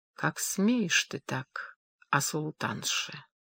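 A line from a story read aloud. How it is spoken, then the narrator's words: Slow. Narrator (Russian): медленно произнес Сулейман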